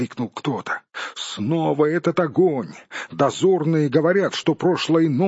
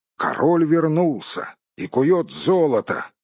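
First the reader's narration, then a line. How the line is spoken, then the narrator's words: Plain. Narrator (Russian): ответили ему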